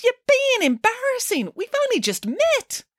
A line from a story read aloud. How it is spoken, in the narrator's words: exclaimed the princess